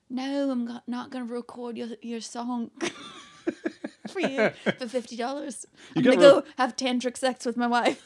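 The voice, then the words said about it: Imitates another person's voice, British accent. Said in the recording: “give me your best Sting ... Doesn't he have a British accent?”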